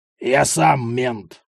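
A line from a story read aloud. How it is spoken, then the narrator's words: Gruff mutter. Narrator (Russian): буркнул Аниськин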